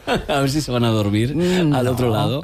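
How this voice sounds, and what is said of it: Late-night radio voice. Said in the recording (Spanish): “poner voz de noche ... Estoy poniendo voz de noche”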